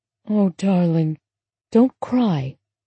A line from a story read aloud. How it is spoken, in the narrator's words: Bib said tenderly